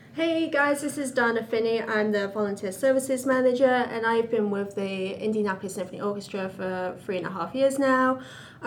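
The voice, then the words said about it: English accent. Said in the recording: “I have a bit of a different accent. I'm originally from England.”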